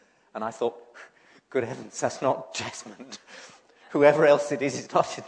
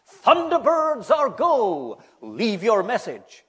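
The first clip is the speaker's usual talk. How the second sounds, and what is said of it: Fake American accent. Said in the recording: “someone with a fake American accent announced”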